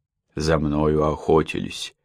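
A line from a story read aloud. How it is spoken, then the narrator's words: Quiet start. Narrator (Russian): негромко начал он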